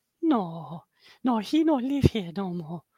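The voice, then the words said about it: Impression of Family Guy's maid. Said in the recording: “every time I do an accent, it always sounds like I'm doing an impression of my mum... Or what's her name? The maid in Family Guy.”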